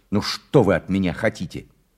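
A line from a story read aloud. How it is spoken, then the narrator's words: Very harsh, sharp. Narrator (Russian): сказал таким же резким голосом, каким говорил дядя, и даже еще резче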